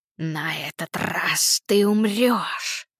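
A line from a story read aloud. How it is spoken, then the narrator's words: Hiss. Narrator (Russian): прошипела она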